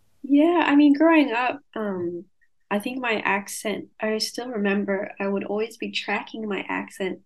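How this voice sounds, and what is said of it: Light accent between Californian and Australian. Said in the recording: “I'm now picking up this like not heavy Australian accent ... it's almost like in the middle of a Californian and an Australian accent”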